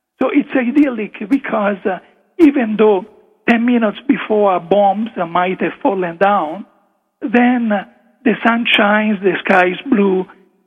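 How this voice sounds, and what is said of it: Italian-accented English. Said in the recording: “English is not really it's not my first language, as you can hear from my accent, I go back into mentally translating what I would have said in Italian”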